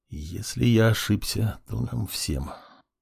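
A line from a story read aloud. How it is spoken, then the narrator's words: Quiet voice, mage. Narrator (Russian): маг тихо произнес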